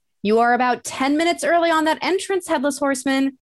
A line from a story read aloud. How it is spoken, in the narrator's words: called out